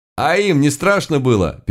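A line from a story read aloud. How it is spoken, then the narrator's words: Moaning. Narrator (Russian): простонал я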